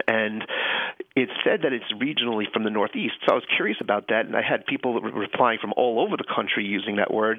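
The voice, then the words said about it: Mild Long Island New York accent. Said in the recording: “I grew up in Long Island, New York. ... you can hear the accent. ... A little bit, yeah.”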